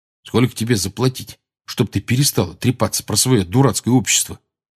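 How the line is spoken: Irritated quiet mutter. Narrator (Russian): раздраженно пробормотал Рон, но так, что слышал его только Гарри

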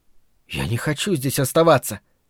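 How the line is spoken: Muttered. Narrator (Russian): пробормотала Фрэнни

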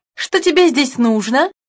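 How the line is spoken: Sharp question. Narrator (Russian): спросила фрау Штейн резким голосом

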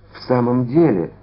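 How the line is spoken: Timid remark. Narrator (Russian): робко заметил Д'Артаньян

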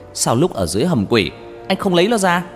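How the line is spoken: Shouting. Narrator (Vietnamese): hét

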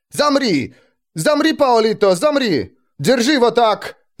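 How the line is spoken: Sudden frenzied yell. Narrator (Russian): Заорал он вдруг, словно обезумев

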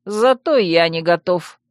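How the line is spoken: Gruff grumble. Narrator (Russian): буркнула гончая

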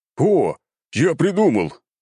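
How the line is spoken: Exclaimed, younger son. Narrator (Russian): воскликнул младший сын главы рода

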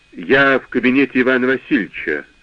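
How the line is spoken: Dry. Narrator (Russian): сухо сказал мой начальник

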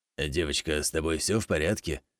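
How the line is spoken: Hoarse warm old man's voice. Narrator (Russian): В сиплом голосе прибавилось тепла, старик

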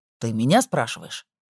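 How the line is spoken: Irritated. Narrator (Russian): также раздраженно произнес

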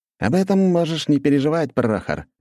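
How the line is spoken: Cheerful exclamation. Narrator (Russian): весело воскликнул Антон

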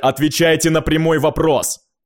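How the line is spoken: Barked, king. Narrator (Russian): рявкнул король

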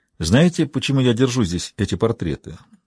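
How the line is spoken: Calm question. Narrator (Russian): спокойно спросил Сансоне

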